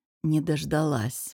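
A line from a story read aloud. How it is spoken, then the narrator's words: Hoarse. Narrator (Russian): отозвался я охрипшим голосом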